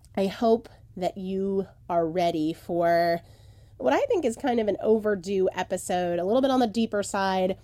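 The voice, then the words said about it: Voice sounds a bit off, strained. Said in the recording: “my voice is a little bit more back than it was in the last episode, I'm still struggling a little bit ... I sound a little bit different”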